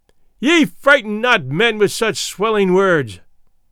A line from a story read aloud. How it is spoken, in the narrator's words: he cried out